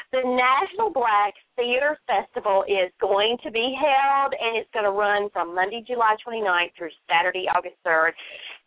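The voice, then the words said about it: North Carolina Southern accent. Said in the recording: “in the great state of North Carolina, where I reside, in case you couldn't tell by my accent”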